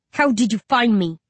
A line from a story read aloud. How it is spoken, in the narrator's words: I snarl